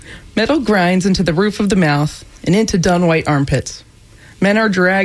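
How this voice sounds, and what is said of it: Usual voice. Nothing is said of it.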